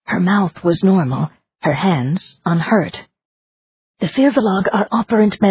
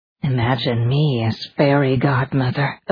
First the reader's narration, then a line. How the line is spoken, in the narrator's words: Elizabeth murmured